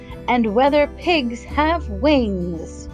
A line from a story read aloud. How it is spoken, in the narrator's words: Harriet shouted the last with glee